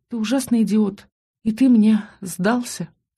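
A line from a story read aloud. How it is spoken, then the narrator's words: Sobbing. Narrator (Russian): Всхлипнула и поправилась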